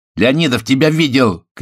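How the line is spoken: Angry shout. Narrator (Russian): крикнул злобно Виктор

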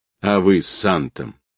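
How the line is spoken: Contemptuous snort. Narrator (Russian): презрительно фыркнул

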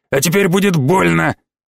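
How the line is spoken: Bark. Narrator (Russian): рявкнул

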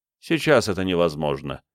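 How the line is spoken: Plain. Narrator (Russian): сказал Бенедикт

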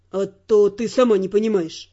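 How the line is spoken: Grumbling. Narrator (Russian): проворчал Дайон

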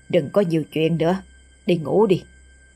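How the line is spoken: Sudden harsh stern voice. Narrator (Vietnamese): Bất chợt bà đứng bật dậy, thái độ thay đổi hẳn, gằn giọng

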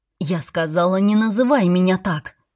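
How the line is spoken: Breathless, agitated. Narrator (Russian): Выдохнула я, мое сердце колотилось так сильно

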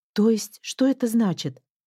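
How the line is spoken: Exclamation. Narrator (Russian): воскликнула Леона

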